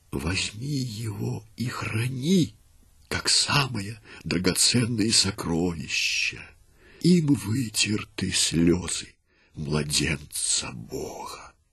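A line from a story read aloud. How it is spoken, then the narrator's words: Weakening whisper. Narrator (Russian): слабеющим голосом прошептала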